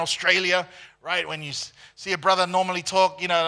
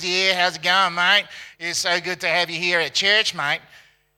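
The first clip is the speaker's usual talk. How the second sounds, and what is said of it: Nasal Australian accent. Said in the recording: “Australian accent, you know, he goes a little bit through the nose”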